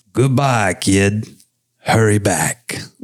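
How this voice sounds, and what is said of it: Humphrey Bogart impression. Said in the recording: “Humphrey Bogart impression”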